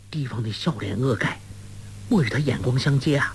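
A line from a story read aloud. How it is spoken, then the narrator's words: Disappointed, low voice. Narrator (Chinese): 黄蓉好生失望，低声道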